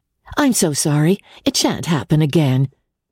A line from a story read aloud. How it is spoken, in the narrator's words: she answered, in the firm, bright tone